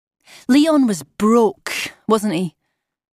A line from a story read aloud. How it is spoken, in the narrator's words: I said loudly